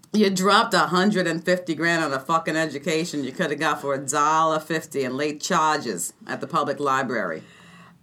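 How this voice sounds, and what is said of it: Put-on Boston accent. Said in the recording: “That was my Boston accent. ... That was a fantastic Boston accent.”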